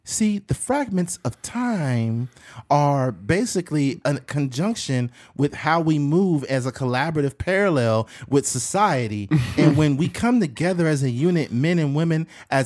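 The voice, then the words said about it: Impression of Kamala Harris. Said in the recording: “Joe Rogan was doing an impression of Kamala Harris”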